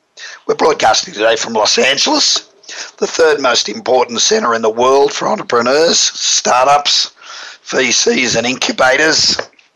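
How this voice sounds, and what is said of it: Hoarse, worn-out voice. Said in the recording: “apologize for my voice. I've just got off an airplane from across the world, and when I got off the plane, my voice was gone.”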